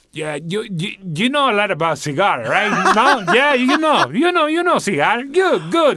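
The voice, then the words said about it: Put-on Miami Cuban accent. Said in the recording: “can you talk with an accent ... What's a Miami Cuban accent?”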